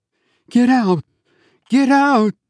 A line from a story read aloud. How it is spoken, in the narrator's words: Out of growing fear, or a moment of bravery, perhaps, I wailed in a raving chant